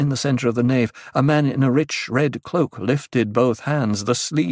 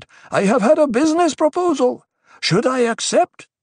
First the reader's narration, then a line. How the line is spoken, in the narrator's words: he shouted